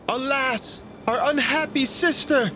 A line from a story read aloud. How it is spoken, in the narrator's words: Brunhilda cried aloud in great agony of mind